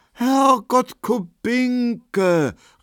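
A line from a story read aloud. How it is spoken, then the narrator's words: Astonished call. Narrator (German): rief Markowski erstaunt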